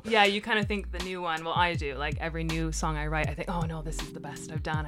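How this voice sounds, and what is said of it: Canadian accent. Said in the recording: “I can obviously tell from the accent ... I'm from Canada, okay. Ontario, Canada.”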